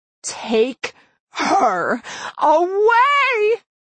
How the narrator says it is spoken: Her scream reverberated up through the room, ringing in my ears

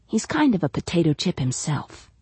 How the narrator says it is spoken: she whispered to Janie

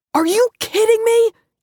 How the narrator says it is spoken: Jay screamed, losing control of his voice as he continued to speak, its volume rising higher and higher with every second

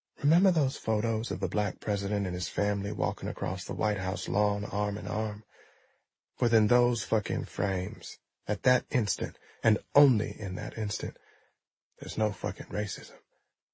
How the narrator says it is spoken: whispered

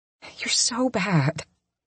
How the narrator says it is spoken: I mutter back to him

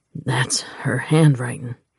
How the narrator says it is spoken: he said hoarsely

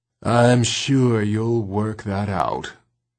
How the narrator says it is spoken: drawled Rip Red

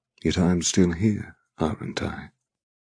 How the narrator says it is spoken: He asks softly

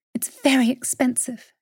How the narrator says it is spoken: she whispered breathlessly

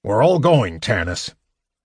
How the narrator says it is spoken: Flint said firmly

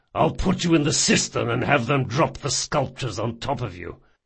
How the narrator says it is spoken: he growled

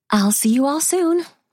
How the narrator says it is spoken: Marissa says cheerfully

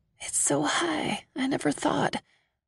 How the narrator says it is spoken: I lean into him and whisper

